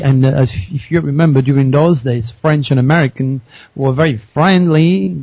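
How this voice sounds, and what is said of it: French-accented English. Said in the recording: “you recognize my accent. And I said, well, I'm from France.”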